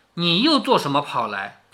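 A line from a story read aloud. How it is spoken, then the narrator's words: Pained sighing voice. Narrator (Chinese): 下半截疼痛难忍，支持不住，便哎呦一声……叹了一声，说道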